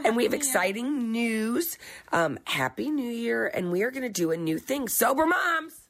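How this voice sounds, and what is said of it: Hoarse, froggy voice. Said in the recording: “Excuse my voice today. I've had a frog in my throat. I have that horrible cold.”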